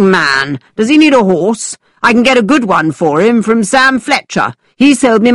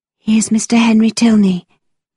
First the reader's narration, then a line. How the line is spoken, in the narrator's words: answered Catherine quietly